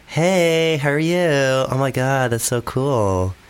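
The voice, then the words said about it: Put-on Valley Girl accent. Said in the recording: “you could do like Valley Girl ... you're actually quite a good at accents”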